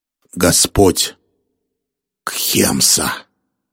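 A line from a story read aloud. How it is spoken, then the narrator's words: Hissing. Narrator (Russian): прошипел Дитарам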